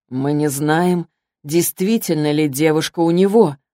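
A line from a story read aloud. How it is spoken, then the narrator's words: Plain. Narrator (Russian): сказал Алик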